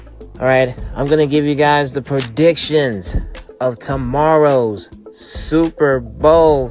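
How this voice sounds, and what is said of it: Usual voice. Nothing is said of it.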